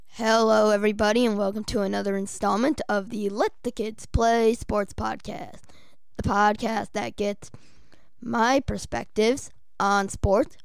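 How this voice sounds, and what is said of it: Voice sounding a bit off. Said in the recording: “my voice is sounding a bit off today ... I've been having a bit of a cough, and it's just played a bit of a toll on how I've been speaking”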